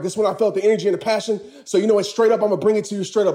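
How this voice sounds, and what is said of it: Out of breath while talking. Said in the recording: “Sorry, I'm out of breath, man”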